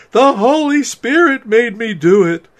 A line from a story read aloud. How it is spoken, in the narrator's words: I pleaded